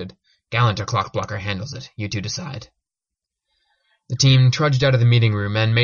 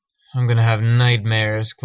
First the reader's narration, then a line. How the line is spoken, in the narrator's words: Clockblocker groaned